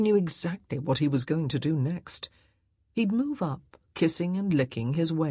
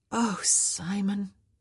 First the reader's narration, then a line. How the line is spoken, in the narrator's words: she sighed